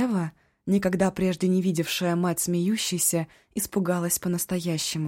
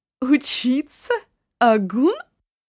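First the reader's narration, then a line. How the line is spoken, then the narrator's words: Bursting into laughter. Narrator (Russian): Дона Нана расхохоталась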